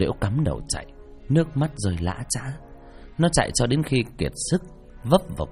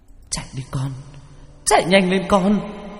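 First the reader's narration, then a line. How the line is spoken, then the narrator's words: Anguished screaming. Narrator (Vietnamese): Mẹ con Liễu gào thét đau đớn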